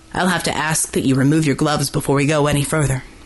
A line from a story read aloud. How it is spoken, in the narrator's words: said in a brusque voice